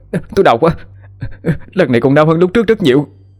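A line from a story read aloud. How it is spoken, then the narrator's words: Screaming in pain. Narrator (Vietnamese): hét lên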